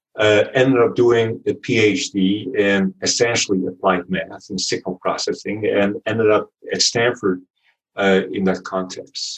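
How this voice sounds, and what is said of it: Dutch accent. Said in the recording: “my accent is Dutch... born and raised in the Netherlands”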